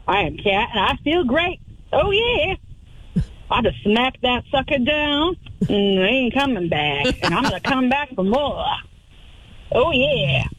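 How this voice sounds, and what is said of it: Put-on southern accent. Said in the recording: “I got a southern accent.”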